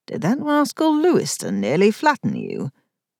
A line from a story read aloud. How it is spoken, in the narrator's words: said with a chuckle